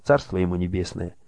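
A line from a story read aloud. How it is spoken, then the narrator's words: Quiet. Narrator (Russian): тихо произнес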